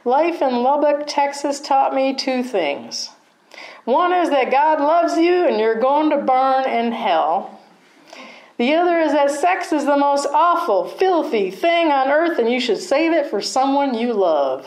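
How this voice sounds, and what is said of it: Put-on Texas accent. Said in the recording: “How is my Texas accent? If you're from Texas, I apologize.”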